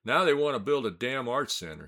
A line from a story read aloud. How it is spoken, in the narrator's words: practically shouted for the rest of us to hear